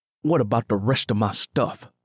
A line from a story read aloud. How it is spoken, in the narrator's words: Simmy growled